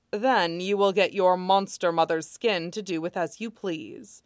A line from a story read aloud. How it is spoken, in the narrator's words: Jing Guangshan says